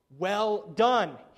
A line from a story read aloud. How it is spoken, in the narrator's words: he says